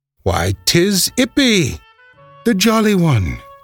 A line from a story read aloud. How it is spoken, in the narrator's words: he exclaimed